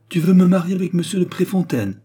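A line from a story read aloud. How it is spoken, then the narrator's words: Exclaimed. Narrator (French): s'écria-t-elle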